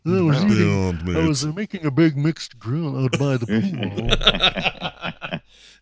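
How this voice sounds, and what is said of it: Highfalutin Mr. Howell impression. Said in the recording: “with like a Mr. Howell accent? ... It did sound highfalutin”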